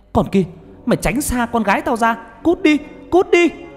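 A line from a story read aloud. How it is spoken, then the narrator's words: Old woman's sudden scream. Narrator (Vietnamese): Bà ngoại của Nhật chợt bà hét lên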